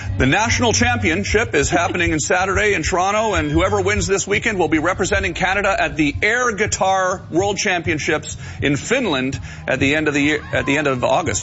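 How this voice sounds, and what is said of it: Full broadcast radio voice. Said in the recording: “You went into full broadcast voice ... radio voice ... the special voice”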